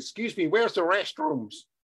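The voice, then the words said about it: Put-on American accent. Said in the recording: “That's my American accent”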